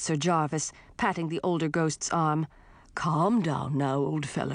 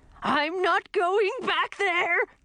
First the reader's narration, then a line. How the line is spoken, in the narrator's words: shouted Hubert